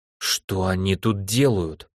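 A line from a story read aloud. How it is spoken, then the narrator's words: Strained, forced out. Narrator (Russian): с трудом выдавила она вопрос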